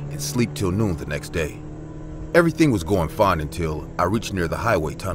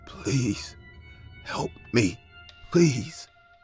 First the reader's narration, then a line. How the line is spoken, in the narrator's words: He said in a broken voice